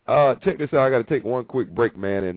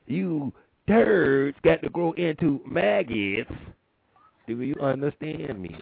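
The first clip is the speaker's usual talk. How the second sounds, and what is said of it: Bad Major Payne impression. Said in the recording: “Major Payne ... bad impression. I'm sorry, people. Bad impression.”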